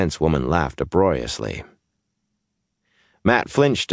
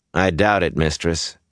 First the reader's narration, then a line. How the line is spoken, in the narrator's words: said dryly